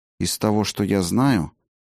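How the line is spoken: Quiet speech. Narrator (Russian): негромко проговорил Фиделис

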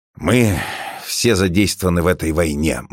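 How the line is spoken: Gloomy. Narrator (Russian): мрачно произносит он

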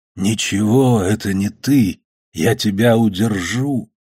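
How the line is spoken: Cracked funereal voice. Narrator (Russian): другой здесь щербатым погребальным голосом зовет

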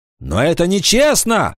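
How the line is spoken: Shouting. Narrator (Russian): закричал Аристон

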